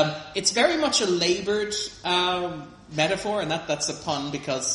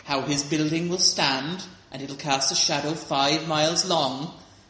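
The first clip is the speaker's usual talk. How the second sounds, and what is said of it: Bad put-on Welsh accent. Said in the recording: “that's a terrible Welsh accent I'm putting on now... That's supposed to be Welsh”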